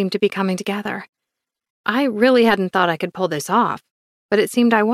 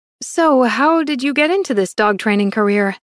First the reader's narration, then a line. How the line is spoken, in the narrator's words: Magdalene asked